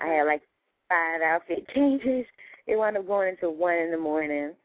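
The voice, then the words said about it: Worn-out, strained voice. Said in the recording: “I'm still recovering from it, as you can hear from my voice.”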